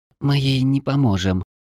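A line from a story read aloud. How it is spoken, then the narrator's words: Quiet. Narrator (Russian): тихо произнесла тушканчик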